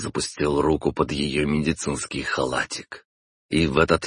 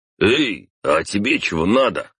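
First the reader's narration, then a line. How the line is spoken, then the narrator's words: Barked. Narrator (Russian): рявкнул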